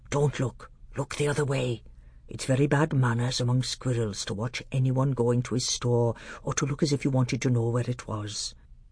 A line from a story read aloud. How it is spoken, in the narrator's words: Truffle Hunter whispered in Caspian's ear